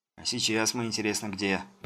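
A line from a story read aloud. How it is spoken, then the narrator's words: Frightened grumble. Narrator (Russian): пробурчал и испуганно покосился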